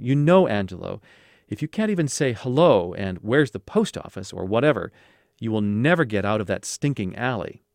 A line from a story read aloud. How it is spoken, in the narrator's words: Vito's impatience grew quickly, and he would start exclaiming in Sicilian